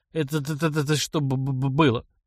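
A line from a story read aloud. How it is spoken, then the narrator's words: Stammering question. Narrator (Russian): заикаясь, спросил тот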